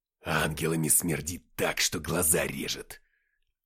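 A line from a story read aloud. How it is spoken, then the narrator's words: Growl. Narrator (Russian): прорычал Деймос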